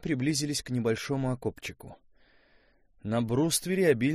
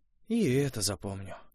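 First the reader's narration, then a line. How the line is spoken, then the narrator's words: Sighing. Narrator (Russian): вздохнул Костя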